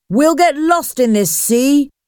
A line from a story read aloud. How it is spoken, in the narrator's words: shouted another